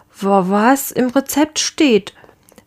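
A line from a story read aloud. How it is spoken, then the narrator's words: Stuttering. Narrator (German): stotterte der Lange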